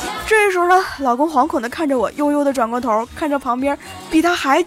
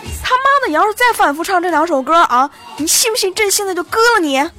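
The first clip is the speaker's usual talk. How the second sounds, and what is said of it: Angry shouting. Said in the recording (Chinese): “我站起来指着老公吼道”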